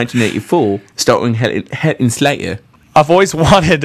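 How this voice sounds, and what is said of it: Usual voice. Nothing is said of it.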